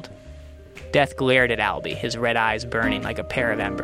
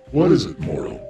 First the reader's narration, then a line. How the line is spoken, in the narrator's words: growled the Reaper